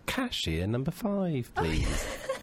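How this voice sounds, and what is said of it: Put-on English accent, woman's voice. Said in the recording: “can you do an English accent? ... I can do the woman at the airport at the magazine”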